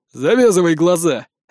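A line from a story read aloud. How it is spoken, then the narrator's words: Barked. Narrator (Russian): рявкнул Рон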